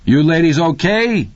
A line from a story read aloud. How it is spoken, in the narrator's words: Deke bellowed